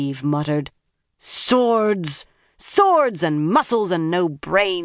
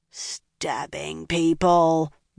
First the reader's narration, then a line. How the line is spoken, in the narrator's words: Nynaeve growled